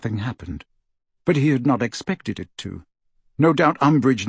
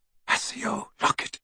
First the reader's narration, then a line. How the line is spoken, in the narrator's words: murmured